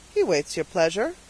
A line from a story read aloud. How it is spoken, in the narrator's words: said the trooper dryly